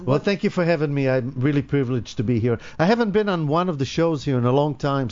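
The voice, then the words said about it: Israeli accent. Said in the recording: “I do have an accent. I'm from Israel as well... I do have an accent. It never goes away.”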